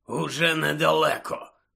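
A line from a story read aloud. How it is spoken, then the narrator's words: Hoarse rasp. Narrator (Ukrainian): прохрипів Муді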